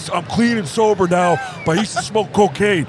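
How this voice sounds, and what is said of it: Mike Lindell impression. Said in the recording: “can you do... Mike Lindell, and I was like, the My Pillow guy? ... And then you start doing the voice.”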